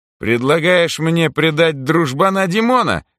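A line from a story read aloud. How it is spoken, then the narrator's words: Scoffing grunt. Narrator (Russian): хмыкнул Митяй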